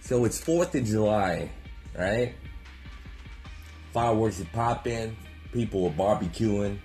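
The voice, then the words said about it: Southern twang accent. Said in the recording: “Southern Twang”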